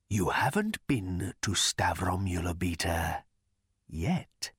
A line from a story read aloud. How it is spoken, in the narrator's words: he whispered